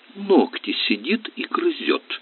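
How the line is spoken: Indignant report. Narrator (Russian): возмущенно доложила сестра

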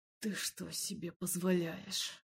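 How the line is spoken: Growled. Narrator (Russian): Зарычал Эмиль

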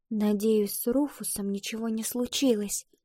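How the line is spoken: Whisper. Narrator (Russian): прошептала Ива

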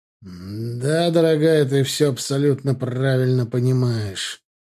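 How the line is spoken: Gloomy. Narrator (Russian): мрачно сказал герцог

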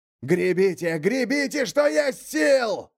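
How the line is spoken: Yelling. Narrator (Russian): заорал Ульвар

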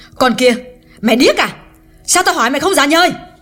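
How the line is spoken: Loud scolding. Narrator (Vietnamese): Hương càng lớn tiếng nạt Liễu

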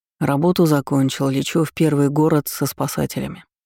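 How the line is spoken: Calm. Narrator (Russian): сказал спокойно

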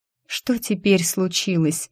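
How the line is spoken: Plain. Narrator (Russian): спросила я

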